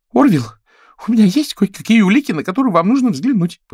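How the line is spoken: Squeak. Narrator (Russian): пропищал он

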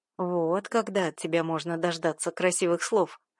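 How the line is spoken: Amused snort. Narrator (Russian): хмыкнул он

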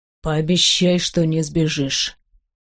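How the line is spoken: Hoarse, unrecognizable voice. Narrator (Russian): хриплый голос трудно узнать

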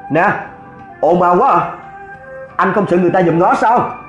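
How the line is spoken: Exasperated shout. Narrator (Vietnamese): bố Duy Minh chịu không có nổi, quay lại quát

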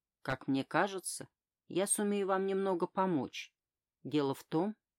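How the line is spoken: Promising tone. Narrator (Russian): сказала я многообещающим тоном

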